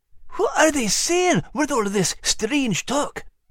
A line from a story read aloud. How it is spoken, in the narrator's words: Max whispered to Liz